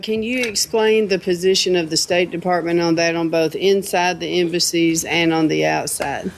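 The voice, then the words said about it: Nashville accent. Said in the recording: “I love your accent. ... I'm from Nashville.”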